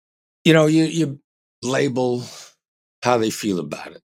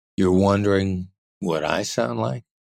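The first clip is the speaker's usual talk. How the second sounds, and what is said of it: Low FM radio DJ voice. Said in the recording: “the FM radio DJ voice with a low inflection point ... the FM radio DJ voice”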